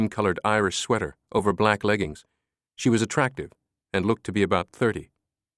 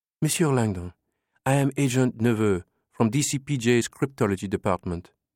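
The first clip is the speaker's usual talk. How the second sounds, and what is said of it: Muted Anglo-French accent. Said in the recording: “Her words curved richly around her muted Anglo-Franco accent.”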